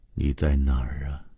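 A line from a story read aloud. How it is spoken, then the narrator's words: Murmuring. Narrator (Chinese): 他对着家具和墙壁喃喃地说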